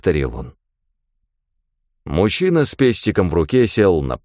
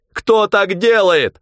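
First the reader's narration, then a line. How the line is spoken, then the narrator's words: Shouting. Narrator (Russian): закричал он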